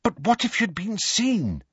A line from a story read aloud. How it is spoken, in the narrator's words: said Hermione anxiously